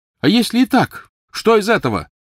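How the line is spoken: Loud. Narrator (Russian): громко ответил Невилл

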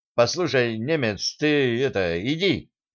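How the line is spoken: Timid suggestion. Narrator (Russian): робко предложил Сан Саныч

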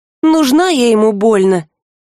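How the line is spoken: Uncertain drawl. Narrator (Russian): неуверенно протянула Рыска

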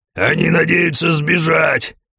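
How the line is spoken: Roaring with loud laughter. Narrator (Russian): Громко хохоча взревел один из гордов 315 уровня

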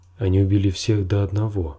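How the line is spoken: Plain. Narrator (Russian): сказал он

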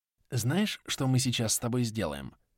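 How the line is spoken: Whispered question. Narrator (Russian): продолжил спрашивать он шепотом

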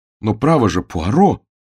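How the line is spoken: Shocked exclamation. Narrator (Russian): воскликнул я, совершенно потрясенный

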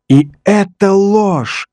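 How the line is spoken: Furious shout. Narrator (Russian): остервенело крикнул Том

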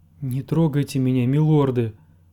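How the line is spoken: Pleading. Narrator (Russian): взмолилась она

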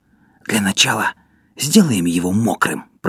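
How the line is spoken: Whisper. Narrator (Russian): прошептал Поль

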